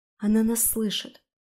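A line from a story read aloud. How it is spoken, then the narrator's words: Whisper. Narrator (Russian): прошептала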